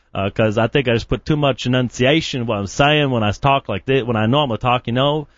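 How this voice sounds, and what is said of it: Usual voice. Nothing is said of it.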